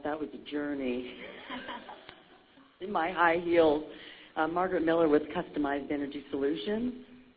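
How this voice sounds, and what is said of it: Out of breath. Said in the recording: “Sorry, I'm out of breath.”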